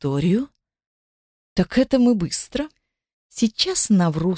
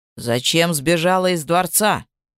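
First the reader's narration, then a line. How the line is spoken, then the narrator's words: Plain question. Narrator (Russian): спросил страж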